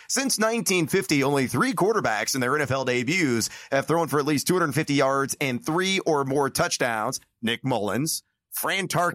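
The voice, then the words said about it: Sports radio announcer voice. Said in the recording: “you gave us a little Westwood One voice there. That was amazing. ... The old ... radio voice.”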